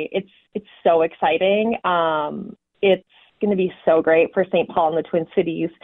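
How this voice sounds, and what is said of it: Excited, enthusiastic voice. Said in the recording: “You can hear the excitement in your voice.”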